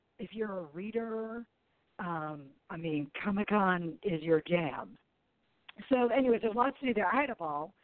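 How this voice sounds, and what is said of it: Sultry, raspy voice. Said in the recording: “as you can tell, I have a naturally sultry, some might say raspy voice. ... coming off of a cold ... it's so raspy.”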